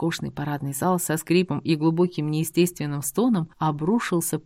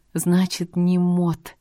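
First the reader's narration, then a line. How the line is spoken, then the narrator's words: Shaken exhale. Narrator (Russian): выдохнула, хотя отойти от увиденного полностью у меня пока не получалось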